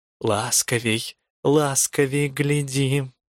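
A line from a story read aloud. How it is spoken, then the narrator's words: Whisper in ear. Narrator (Russian): нашептывала на ухо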